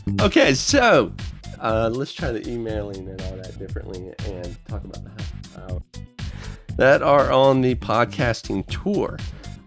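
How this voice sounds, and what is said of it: Put-on British accent. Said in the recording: “I'm going into my British accent.”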